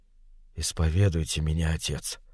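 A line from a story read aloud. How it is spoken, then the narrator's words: Whisper. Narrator (Russian): прошептал чей-то голос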